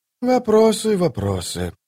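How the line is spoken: Sigh. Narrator (Russian): вздохнул Колот

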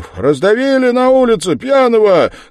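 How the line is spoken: Shouted. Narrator (Russian): крикнул кто-то из синей

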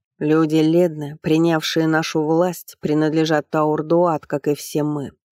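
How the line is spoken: Prince's booming voice. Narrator (Russian): прогремел голос царевича

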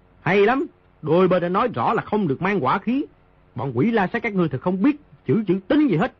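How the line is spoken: Loud speech. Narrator (Vietnamese): Di Tiểu Bảo lớn tiếng nói

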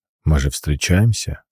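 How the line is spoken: Calm reply. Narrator (Russian): спокойно отвечает он

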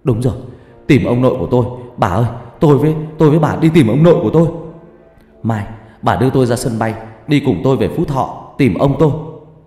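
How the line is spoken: Shouting. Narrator (Vietnamese): Nó hét lên

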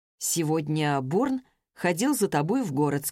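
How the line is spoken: Plain. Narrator (Russian): сказал он

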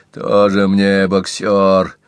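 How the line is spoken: Contemptuous snort. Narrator (Russian): презрительно фыркнул Пинки

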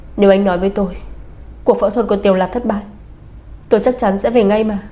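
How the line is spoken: Angry. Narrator (Vietnamese): Bạch Tinh Nhiên tức giận

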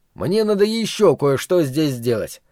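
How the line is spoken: Plain. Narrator (Russian): ответил Гарольд

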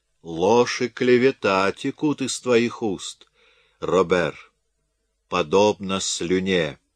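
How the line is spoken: Calm countess. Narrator (Russian): спокойно произнесла графиня

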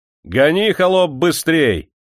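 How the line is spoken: Cheerful shout. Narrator (Russian): весело закричал ямщику

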